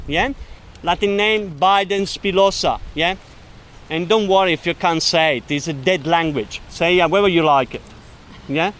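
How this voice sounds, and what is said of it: Speaks with a noticeable accent. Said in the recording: “You don't need to say it with my accent. Who said that my accent is right?”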